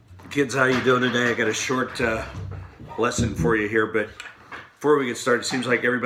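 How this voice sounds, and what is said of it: Usual voice. Nothing is said of it.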